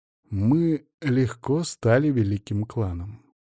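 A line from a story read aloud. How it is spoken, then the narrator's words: Slow speech. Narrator (Russian): медленно произнес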